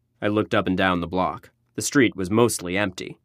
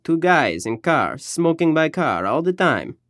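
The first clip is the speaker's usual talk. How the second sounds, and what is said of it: Put-on Albanian accent. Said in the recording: “he said in an Albanian accent”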